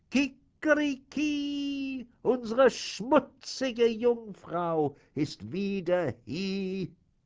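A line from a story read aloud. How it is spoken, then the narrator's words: Rooster crowing call. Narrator (German): der Hahn auf dem Brunnen, als er sie sah, rief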